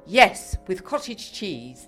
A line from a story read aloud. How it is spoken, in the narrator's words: Maud said firmly